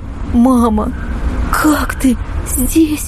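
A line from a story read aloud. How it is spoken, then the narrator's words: Sobbing. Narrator (Russian): Ксюша всхлипнула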